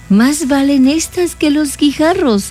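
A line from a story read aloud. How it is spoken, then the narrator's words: Exclaimed. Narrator (Spanish): exclamó Hansel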